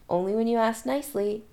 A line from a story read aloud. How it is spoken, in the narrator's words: he murmurs